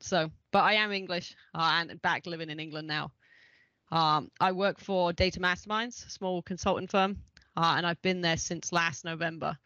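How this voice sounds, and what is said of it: Mid-Atlantic English-American accent. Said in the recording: “I've got a bit of a weird accent because I lived in Ohio for 15 years, and now I've got just a unique middle of the Atlantic accent.”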